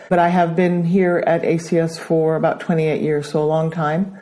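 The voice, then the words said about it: American accent. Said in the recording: “which explains my American accent”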